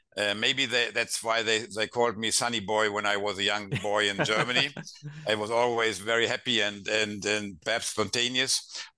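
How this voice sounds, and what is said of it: German accent speaking English. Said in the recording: “I have that horrible German accent speaking English”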